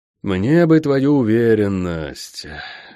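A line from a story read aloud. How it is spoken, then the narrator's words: Sigh. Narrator (Russian): вздохнул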